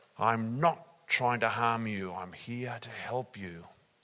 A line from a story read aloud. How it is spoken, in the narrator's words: in a big, loud, booming voice